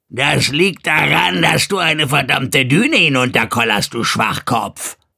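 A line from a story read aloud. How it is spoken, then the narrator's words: Unpleasant croaking, too loud. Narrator (German): Die Stimme war unangenehm, krächzend und viel zu laut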